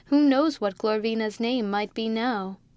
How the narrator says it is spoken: he added with a laugh

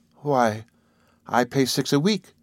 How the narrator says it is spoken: she feebly confessed

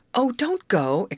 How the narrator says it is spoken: exclaimed Grace

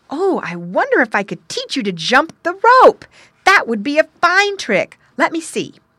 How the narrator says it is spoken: The boy cried

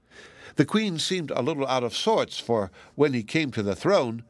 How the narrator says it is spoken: she said to him sharply

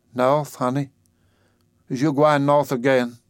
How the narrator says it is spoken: She gazed at him dimly and faltered

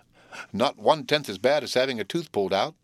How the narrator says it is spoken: laughed Will

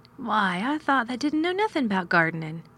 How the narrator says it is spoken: exclaimed

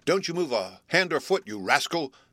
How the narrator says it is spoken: cried Bluff sternly

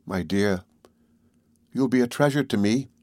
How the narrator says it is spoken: said Nancy in her gentle voice

